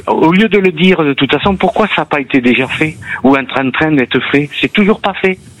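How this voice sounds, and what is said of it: Perpignan French accent. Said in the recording (French): “avec l'accent de Perpignan”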